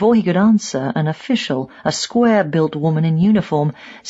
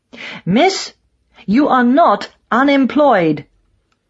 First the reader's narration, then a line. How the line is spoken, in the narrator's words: she barked